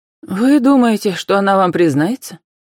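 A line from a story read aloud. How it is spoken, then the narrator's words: Sad question. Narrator (Russian): печально спросила Вера Николаевна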